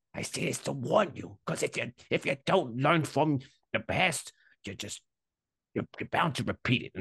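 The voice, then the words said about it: Unidentified put-on character accent. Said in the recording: “I don't know what this accent is, but I think we just built a character here”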